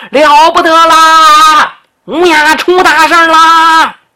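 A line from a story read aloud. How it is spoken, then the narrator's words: Loud shout. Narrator (Chinese): 外头有人大喊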